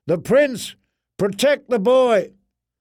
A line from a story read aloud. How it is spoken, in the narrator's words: someone shouted, far away